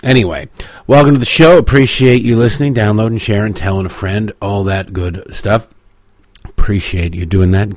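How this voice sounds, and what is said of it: Hoarse, congested voice. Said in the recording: “If I sound a little bit different, it's because something, I don't know, some frog in my throat or some mucus in my nose... it's my sexy voice.”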